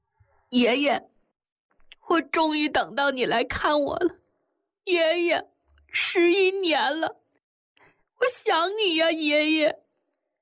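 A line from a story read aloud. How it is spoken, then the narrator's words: Sobbing loudly, tearful longing. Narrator (Chinese): 婴儿，再也抑制不住眼里的泪水和心中对爷爷的思念，放声的大哭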